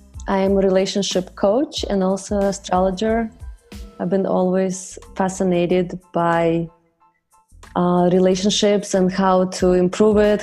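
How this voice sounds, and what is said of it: Russian accent. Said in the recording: “my funny accent is I was born and raised in Russia”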